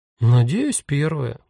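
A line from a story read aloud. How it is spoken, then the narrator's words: Uncertain reply. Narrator (Russian): неуверенно ответила Таня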